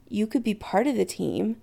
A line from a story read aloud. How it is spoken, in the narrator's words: Chris says softly, daring to hope